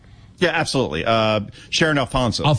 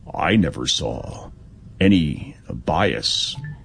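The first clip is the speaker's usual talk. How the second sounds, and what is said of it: Slow impression of another person's voice. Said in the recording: “that is a good impression ... I've slowed it up ... It's got to be very slow”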